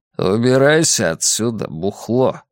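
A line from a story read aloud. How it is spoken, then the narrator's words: Through clenched teeth. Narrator (Russian): процедил Фредди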